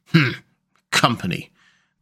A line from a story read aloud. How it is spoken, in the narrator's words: The badger grunted